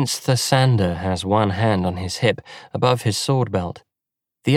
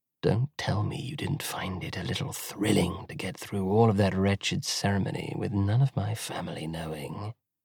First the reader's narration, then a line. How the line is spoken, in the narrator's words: with a handsome sneer whispers